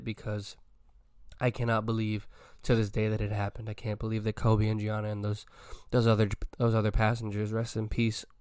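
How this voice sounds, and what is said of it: Emotional, choked-up, tearful voice. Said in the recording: “getting choked up, but getting a little emotional ... I'm out here tearing”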